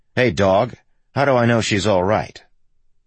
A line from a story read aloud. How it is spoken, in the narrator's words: he just blurts